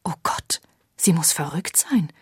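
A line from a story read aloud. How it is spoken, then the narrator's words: Breathless shocked whisper. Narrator (German): hauchte die kreidebleiche Mrs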